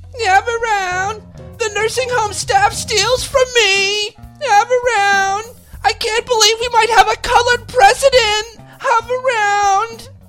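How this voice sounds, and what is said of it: Mocking old lady voice. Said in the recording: “Oh, that voice, those old people voices. ... The same tone of voice.”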